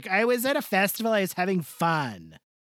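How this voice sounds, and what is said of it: Put-on stereotyped gay accent. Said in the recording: “like a gay uh, accent kind of thing I was doing”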